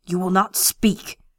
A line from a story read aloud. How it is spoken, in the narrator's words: he snarled